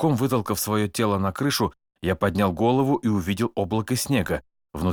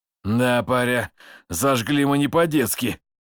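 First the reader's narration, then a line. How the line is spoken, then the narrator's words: Pleased loud laughter. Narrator (Russian): Суворов довольно расхохотался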